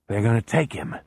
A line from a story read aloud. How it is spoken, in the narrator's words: Beezer murmurs